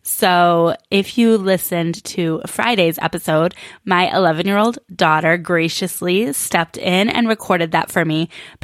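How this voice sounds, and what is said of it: Weakened voice recovering from illness. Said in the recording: “I sound a little different today, and that is because I am coming out of being sick ... I had absolutely no voice ... I am still not at 100%”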